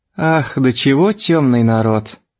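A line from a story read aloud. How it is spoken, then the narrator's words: Pitying. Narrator (Russian): жалостливо добавила Пелагея Ивановна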